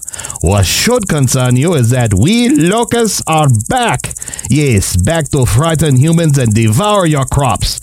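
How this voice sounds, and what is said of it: Locust character with French accent. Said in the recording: “I am a locust. Louis the locust. Why I have a French accent”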